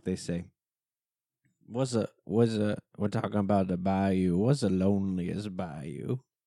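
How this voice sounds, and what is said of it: Put-on Louisiana accent. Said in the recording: “you have to tell it in a Louisiana accent”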